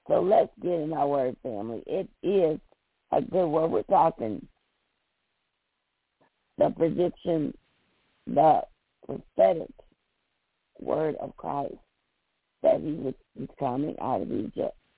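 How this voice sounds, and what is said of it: Hoarse voice. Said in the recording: “I'm a little hoarse this morning ... I'm just hoarse.”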